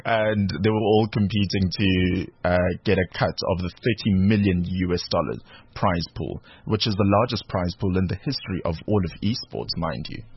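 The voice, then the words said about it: South African Durban accent. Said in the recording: “my Durban accent peeping up”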